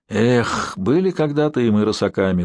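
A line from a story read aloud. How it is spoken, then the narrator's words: Sighing. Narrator (Russian): вздохнул Горин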